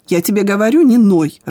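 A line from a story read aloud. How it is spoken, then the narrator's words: Irritated snap. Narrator (Russian): раздраженно бросила Ира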